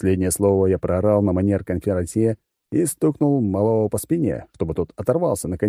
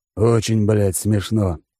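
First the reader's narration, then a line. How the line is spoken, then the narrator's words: Hissed. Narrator (Russian): прошипел Алекс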